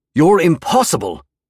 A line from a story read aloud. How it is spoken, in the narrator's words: I roared